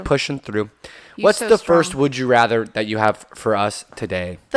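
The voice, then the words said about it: Worn-out, hoarse voice. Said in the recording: “my voice is kind of shot”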